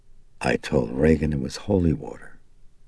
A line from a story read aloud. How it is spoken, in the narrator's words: Karis said softly